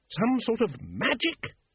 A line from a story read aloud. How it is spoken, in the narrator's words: He spat the word